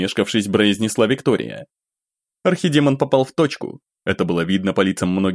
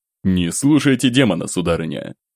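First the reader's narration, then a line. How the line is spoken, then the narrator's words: Firm low voice. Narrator (Russian): Твердым низким голосом бросил цесаревич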